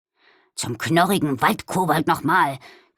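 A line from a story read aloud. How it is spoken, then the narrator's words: Growling. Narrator (German): knurrte Balduin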